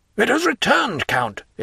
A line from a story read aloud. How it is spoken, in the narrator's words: exclaimed Morel